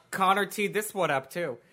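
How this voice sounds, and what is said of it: Sounds like an older Jewish aunt. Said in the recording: “Why do you sound like my Jewish aunt?”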